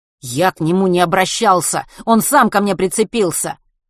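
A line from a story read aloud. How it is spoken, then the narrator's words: Snapping retort. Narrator (Russian): огрызнулся Матвей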